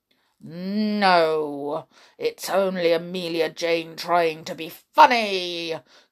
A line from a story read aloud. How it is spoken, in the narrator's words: growled the bear